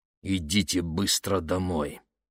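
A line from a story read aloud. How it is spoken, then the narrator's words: Through clenched teeth. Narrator (Russian): процедил отец сквозь зубы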